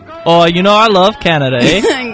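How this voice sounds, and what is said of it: Put-on Canadian accent. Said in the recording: “is a man of many accents. He can sound like a Canadian. ... He does accents way too well.”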